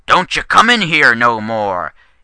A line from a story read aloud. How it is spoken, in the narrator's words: growled in his gravelly voice